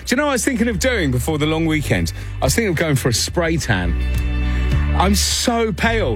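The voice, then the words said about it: British accent. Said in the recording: “they hear my accent ... The paleness fits the British.”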